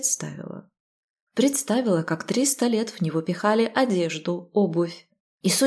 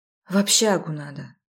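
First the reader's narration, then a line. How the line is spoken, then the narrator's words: Sighing. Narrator (Russian): вздохнула я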